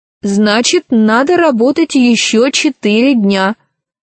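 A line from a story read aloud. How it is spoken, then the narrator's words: Plain. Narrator (Russian): ответила Ирия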